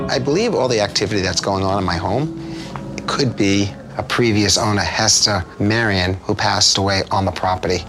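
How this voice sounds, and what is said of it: Noticeable unfamiliar accent. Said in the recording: “What is that accent?”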